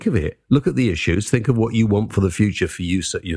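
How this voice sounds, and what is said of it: Usual voice. Nothing is said of it.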